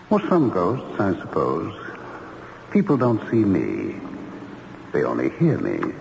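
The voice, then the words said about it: Spooky ghostly voice. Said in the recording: “you do have a kind of spooky voice”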